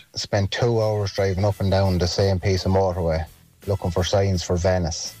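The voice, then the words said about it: Irish Louth regional accent. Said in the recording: “Are you from Louth? That accent”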